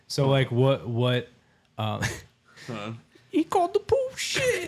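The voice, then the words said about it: Adam Sandler-style comedic voice. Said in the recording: “best Adam Sandler impersonation ... That's pretty good.”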